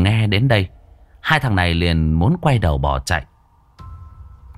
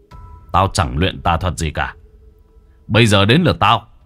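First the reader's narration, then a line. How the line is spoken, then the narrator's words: Smiling man. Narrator (Vietnamese): Người đàn ông mỉm cười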